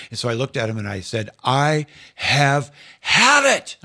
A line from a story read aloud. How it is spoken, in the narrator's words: I yelled